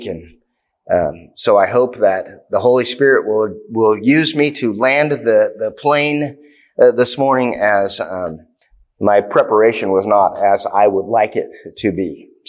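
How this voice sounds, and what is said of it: Strained, fading voice. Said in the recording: “losing my voice ... I have been kind of under the weather all week”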